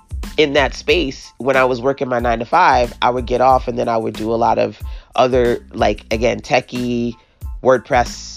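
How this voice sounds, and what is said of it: Brooklyn accent. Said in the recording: “Born and raised Brooklyn girl, if you can't already tell from the accent.”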